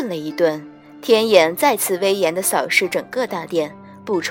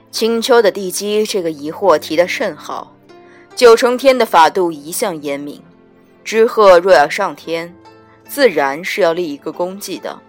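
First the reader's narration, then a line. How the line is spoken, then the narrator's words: Deep, grave voice. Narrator (Chinese): 威严的天眼往殿内一扫，沉声道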